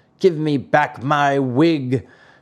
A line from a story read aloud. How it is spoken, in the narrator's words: shouted Mastro Antonio in a surly voice